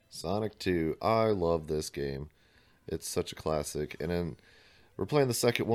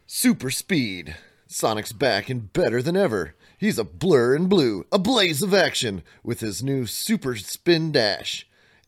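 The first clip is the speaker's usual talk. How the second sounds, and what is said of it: Radio announcer voice. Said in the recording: “do the radio announcer voice”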